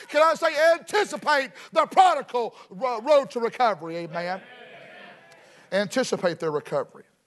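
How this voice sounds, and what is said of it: Rural Southern American accent. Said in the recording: “you listen to my accent and you say, that boy right there is a redneck hillbilly”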